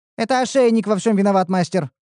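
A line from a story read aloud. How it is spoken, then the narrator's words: Rapid chatter. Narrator (Russian): затараторила Ниуру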